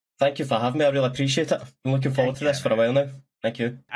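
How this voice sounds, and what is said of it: Scottish accent. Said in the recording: “quite a nice Scottish accent”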